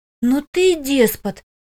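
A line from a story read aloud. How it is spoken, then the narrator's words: Breathless, trembling, indignant. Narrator (Russian): выдохнула, дрожа не то от возмущения, не то от того, что он опять оказался слишком близко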